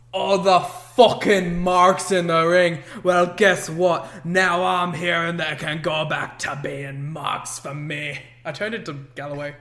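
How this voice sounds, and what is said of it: Put-on Scottish accent. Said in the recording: “You cannot do it without veering into a Scottish accent. It's upsetting.”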